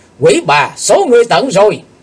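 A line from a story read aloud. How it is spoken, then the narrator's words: Loud shout. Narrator (Vietnamese): Chàng hét lớn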